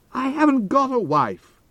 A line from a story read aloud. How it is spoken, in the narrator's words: I yelled